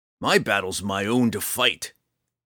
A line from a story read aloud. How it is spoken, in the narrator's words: he snarled